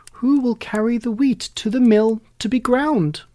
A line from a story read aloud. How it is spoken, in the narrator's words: she called out